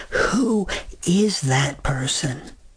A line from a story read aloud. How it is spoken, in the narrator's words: people whispering